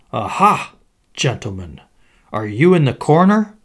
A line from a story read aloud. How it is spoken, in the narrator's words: they cried